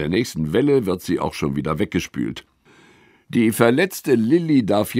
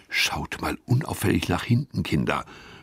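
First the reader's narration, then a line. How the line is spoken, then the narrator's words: Whispered. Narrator (German): flüstert Gustav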